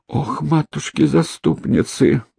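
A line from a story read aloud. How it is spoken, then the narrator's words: Trembling voice. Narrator (Russian): дрогнувшим голосом проговорила Марфа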